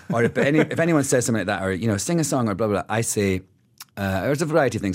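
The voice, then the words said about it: Scottish accent. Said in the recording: “You say that with a Scottish accent.”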